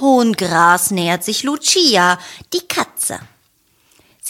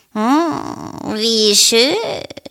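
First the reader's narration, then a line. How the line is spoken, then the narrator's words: Purring. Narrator (German): schnurrt sie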